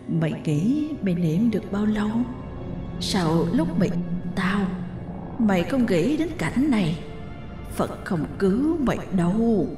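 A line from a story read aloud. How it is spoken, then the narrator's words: Menacing whisper. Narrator (Vietnamese): thì thầm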